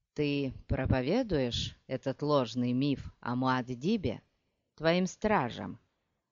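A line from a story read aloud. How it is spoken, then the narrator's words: Quiet question. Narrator (Russian): негромко спросил Хейт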